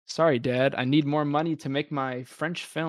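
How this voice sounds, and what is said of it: Pretentious film student voice. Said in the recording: “I'll do my best impression of a film student right now.”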